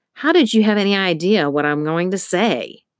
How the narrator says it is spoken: Al snapped

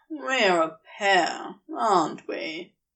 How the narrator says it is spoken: He said with a dramatic sigh to take the sting out of it

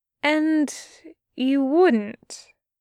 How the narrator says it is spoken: Aziraphale said slowly

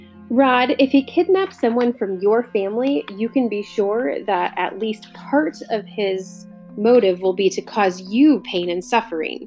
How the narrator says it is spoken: said Targibbons

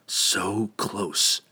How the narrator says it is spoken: he whispered helplessly

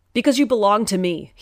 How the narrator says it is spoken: he roared, the whole house shaking from his voice

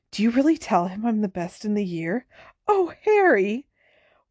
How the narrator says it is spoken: Hermione turned to Harry with a radiant expression and whispered

